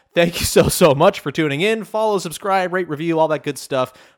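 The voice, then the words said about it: Strained, failing voice. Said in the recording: “my voice is failing me now”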